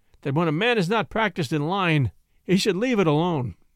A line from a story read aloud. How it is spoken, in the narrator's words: he added mournfully